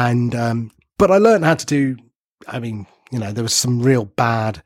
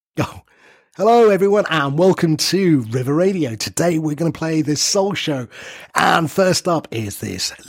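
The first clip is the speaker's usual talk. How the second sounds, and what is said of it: Cheesy radio DJ voice. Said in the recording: “Give us a, a little sample of your uh, DJ voice ... Oh, so cheesy.”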